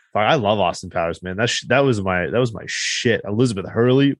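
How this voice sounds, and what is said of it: Usual voice. Nothing is said of it.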